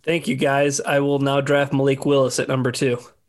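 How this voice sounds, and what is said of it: Imitates another person's voice. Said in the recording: “that's a great Dan Campbell impression ... that great impression”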